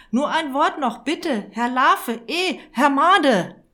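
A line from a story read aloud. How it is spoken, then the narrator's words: Calling out. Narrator (German): rief Herr Irwitzer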